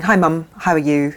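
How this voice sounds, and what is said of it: Put-on English accent. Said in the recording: “What is that accent? ... became like a young English girl ... what you thought at the time was an English accent”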